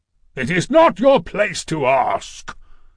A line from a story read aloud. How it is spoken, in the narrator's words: thundered the king of the gods